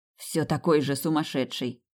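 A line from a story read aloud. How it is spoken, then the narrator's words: Muttered. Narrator (Russian): пробурчал он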